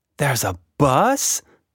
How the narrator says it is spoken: Tilda gasped with joy

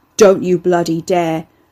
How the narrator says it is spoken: Ricky growled

